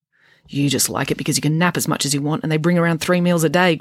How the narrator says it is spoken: grumbled Friday

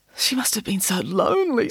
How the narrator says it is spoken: said with a sob

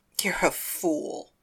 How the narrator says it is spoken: I whispered

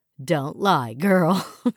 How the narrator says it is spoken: Valerie chuckled

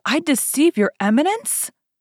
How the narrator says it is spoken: cried Bonacieux

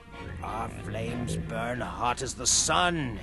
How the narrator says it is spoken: he murmured

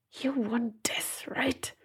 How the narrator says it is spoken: she hissed at it

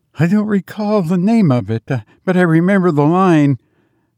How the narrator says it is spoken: faltered Biggs

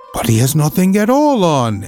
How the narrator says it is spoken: at last cried out the people

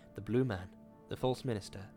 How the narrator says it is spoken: whispered

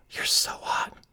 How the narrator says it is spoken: I whisper in his ear

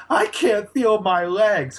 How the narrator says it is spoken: Grayson yells out

